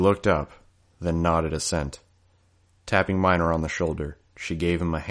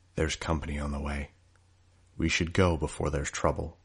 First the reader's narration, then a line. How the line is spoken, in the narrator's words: I murmured